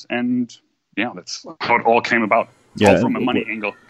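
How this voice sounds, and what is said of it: Non-English, German accent. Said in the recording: “That's not an English accent. ... originally I'm from Europe, so German.”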